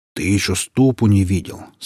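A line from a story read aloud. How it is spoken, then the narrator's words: Calm reply. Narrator (Russian): спокойно отозвался леший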